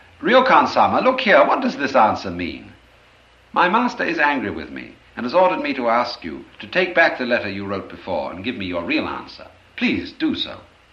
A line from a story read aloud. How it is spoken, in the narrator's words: finally called out in a loud voice